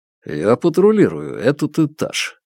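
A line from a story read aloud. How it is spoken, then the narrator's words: Calm. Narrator (Russian): наконец спокойно говорит он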